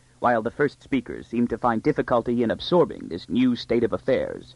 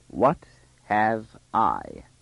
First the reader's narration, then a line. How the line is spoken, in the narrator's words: repeated the first speaker slowly